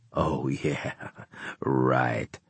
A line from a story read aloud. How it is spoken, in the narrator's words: he said with an unpleasant laugh